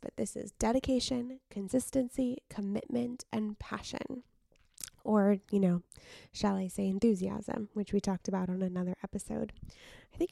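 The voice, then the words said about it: Tired voice with vocal fry. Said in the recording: “my voice sounds tired. I'm really worried I have some vocal fry”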